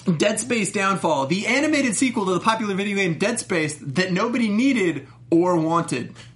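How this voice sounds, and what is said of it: Dramatic announcer voice. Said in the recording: “put on my announcer voice.”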